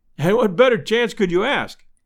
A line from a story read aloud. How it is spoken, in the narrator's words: I cried